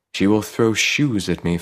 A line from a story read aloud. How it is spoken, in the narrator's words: Farid sighed